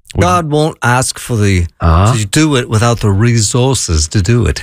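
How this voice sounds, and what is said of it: Imitates another person's voice. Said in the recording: “And that was a really bad impression. ... it was actually pretty good. ... That would make me sound like him.”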